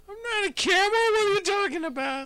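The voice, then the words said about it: High-pitched character voice. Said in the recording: “Why do you have such a high voice?”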